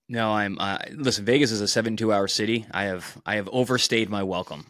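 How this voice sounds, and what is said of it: Hoarse voice. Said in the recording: “My voice, you can hear. I'm hoarse. Lots of boxing, lots of talking.”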